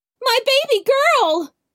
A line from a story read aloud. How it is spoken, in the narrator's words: cried the mother